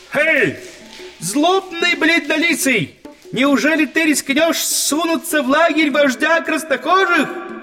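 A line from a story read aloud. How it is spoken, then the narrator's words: Shouted. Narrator (Russian): закричал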